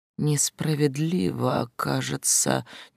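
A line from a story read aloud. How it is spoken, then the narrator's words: Uncertain drawl, young man. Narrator (Russian): неуверенно протянул парень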